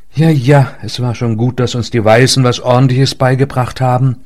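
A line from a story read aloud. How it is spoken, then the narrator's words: Sigh. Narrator (German): seufzte Leinet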